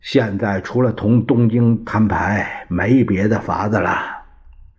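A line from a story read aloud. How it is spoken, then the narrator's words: Long sigh. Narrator (Chinese): 汪精卫长叹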